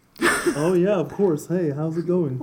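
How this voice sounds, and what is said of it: Imitates another person's voice. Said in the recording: “What is that, the voice from Ben Donovan? ... Are you doing an impression of me?”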